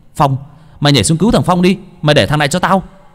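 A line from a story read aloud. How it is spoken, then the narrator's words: Shouting. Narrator (Vietnamese): Hồng hét lên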